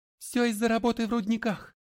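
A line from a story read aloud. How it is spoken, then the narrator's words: Heavy sobbing. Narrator (Russian): Харви все еще сильно всхлипывая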